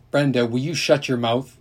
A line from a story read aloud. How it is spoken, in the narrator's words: his mother said sharply, then more warily